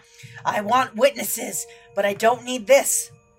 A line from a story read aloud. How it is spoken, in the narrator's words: he kind of hisses back at Rustler